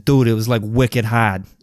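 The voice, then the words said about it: Put-on Boston accent. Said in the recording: “As my buddy Alex would say it in his Boston accent”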